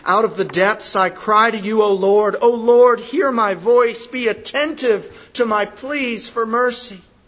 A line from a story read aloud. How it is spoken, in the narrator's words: the psalmist who cried out